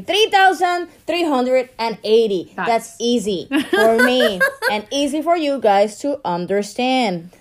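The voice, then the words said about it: Formal newscaster-style voice. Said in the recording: “That's like newscaster voice... Newscaster voice.”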